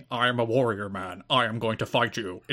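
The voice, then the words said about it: Deep voice imitating Low-Ki. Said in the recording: “in my deep Loki voice ... It's pretty good.”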